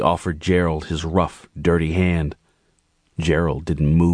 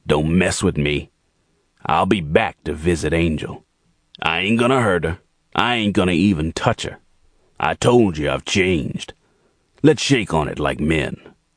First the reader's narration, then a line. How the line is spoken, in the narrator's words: Jordan growled at Gerald